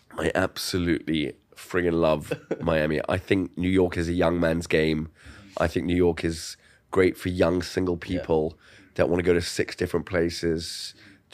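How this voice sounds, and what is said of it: Congested, stuffy-nosed voice. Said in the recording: “I've got a little bit of a cold... my nose is stuffed”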